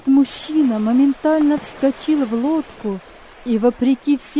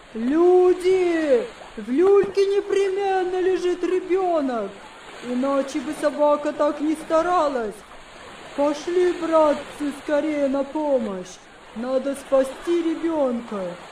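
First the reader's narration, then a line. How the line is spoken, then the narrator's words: Loud man's exclamation. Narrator (Russian): один из мужчин громко воскликнул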